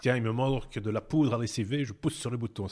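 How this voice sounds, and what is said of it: Silly put-on accent of unclear origin. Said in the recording (French): “C'est un accent à la con que je ne sais pas d'où il vient ... D'où t'as sorti cet accent”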